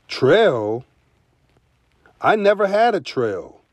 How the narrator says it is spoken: Guinea Fowl said

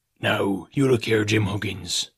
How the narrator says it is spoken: he said in a steady whisper that was no more than audible

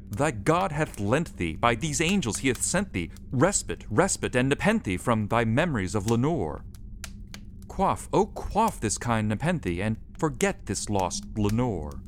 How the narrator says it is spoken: I cried

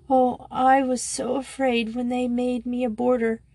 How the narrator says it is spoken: she sobbed

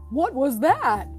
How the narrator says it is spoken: Tom cried

